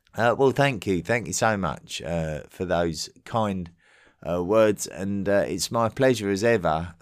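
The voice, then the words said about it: Thick English accent, genial delivery. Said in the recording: “His thick English accent might be difficult for American listeners at first ... his delivery of his scripts is engaging and genial”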